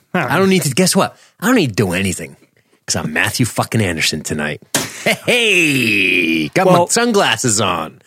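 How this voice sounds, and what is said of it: Terrible imitation of another person's voice. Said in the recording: “terrible impression”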